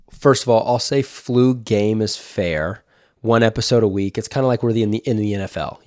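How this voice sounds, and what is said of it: Sick, under-the-weather voice. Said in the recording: “woke up feeling under the weather ... I'm battling a little bit. I don't know if you can hear it in my voice.”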